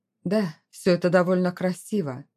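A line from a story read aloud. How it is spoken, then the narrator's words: Dry reply. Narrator (Russian): сухо ответил он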